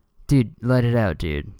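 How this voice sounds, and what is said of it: Character voice for his brain. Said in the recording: “This is my impression of my brain.”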